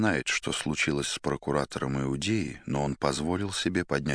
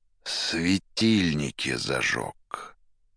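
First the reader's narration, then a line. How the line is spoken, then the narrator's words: Through clenched teeth. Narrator (Russian): Сквозь зубы в тон арестанту проговорил Пилат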